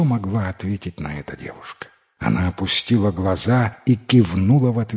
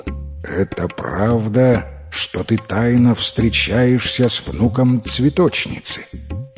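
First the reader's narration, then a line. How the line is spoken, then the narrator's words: Stern question. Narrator (Russian): грозно сдвинув брови, спросил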